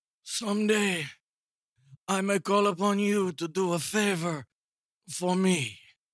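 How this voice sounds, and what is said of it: Godfather character impression. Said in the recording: “a little Godfather I- impersonation or impression ... Beautiful. Great job.”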